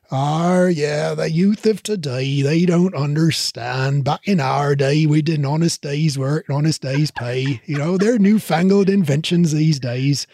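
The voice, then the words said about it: Old rural Cornish-style accent. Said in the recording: “That's not a Yorkshire accent ... I think that's more sort of like a Cornwall-y kind of Cornwall. Accent.”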